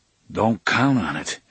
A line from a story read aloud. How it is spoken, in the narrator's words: Eddie said gloomily